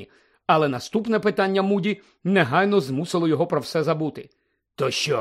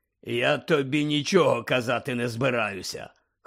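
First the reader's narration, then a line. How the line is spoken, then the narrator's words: Hoarse speech. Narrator (Ukrainian): хрипко мовив Муді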